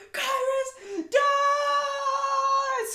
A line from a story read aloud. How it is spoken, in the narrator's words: I screamed